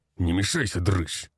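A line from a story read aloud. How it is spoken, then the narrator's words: Growled. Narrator (Russian): рыкнул он на меня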